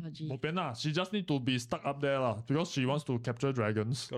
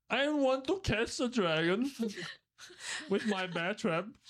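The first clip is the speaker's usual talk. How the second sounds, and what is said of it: Imitates another person's voice. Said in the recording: “She doesn't sound like that. ... what is the accent? ... I do a perfect impression of Angie.”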